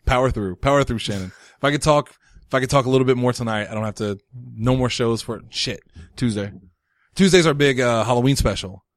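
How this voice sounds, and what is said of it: Hoarse, strained, fading voice. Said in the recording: “doing your creepy voice? ... I'm actually losing my voice.”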